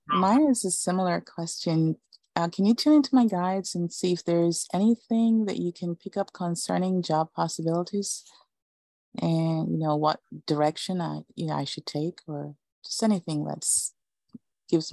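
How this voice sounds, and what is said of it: Jamaican accent. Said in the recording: “I'm trying to figure out the accent. Is it, I'm thinking either South American or Eastern European. ... Caribbean. ... Jamaica.”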